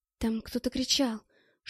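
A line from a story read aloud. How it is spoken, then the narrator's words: Whisper. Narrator (Russian): шепотом сказала она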